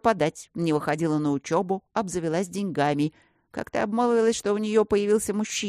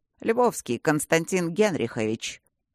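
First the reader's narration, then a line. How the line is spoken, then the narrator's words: Dry clarification. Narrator (Russian): сухо уточнил Тандаджи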